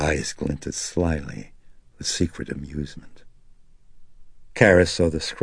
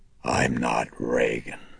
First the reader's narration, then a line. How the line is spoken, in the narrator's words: she rumbled, still with that taut and hideous grin